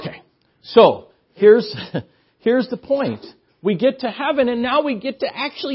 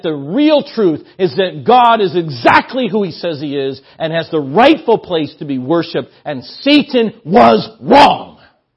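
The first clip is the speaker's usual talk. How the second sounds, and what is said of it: Excited yelling. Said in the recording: “I get kind of excited about this ... quit yelling at you”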